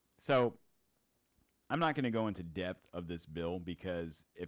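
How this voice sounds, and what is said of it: Usual voice. Nothing is said of it.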